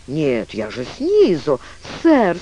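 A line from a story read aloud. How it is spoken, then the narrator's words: Moaning. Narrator (Russian): стонала мисс Вильгельмина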